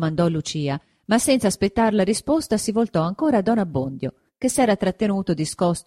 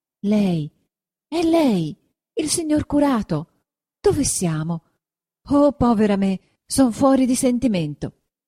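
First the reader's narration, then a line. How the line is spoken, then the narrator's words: Exclaiming. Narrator (Italian): esclamò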